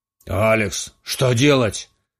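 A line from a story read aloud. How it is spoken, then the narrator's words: Exclaiming. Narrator (Russian): воскликнул Резо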